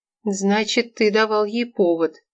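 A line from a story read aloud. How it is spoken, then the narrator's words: Tired quiet question. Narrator (Russian): Вадим устало закрыл глаза и тихо спросил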